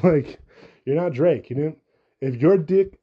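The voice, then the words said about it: Brief slip into an accent. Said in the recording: “I just had an accent for whatever reason”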